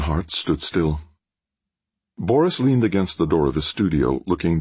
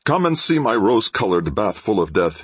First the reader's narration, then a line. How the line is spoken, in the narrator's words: he cried